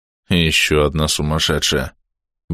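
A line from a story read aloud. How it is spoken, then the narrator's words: Muttering. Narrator (Russian): бормочет кто-то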